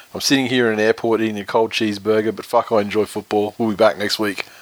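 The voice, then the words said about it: Voice nearly lost, strained. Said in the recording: “I've lost my voice.”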